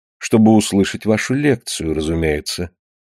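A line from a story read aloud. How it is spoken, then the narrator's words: Calm reply. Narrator (Russian): Она спокойно ответила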